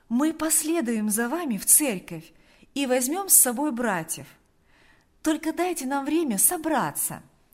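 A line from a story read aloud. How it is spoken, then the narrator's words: Kind cheerful voice. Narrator (Russian): Она говорила добрым, жизнерадостным голосом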